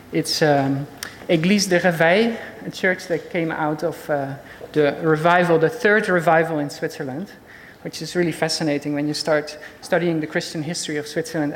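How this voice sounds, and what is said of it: Dutch-accented English. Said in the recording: “I'm originally Dutch, as you can probably hear.”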